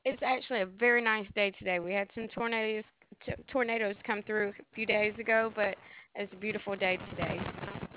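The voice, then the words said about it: Slight Southern US accent. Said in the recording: “you had a little accent there”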